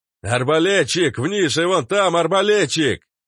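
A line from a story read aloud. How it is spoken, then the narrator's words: Frantic scream. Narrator (Russian): Заорал кто-то истошно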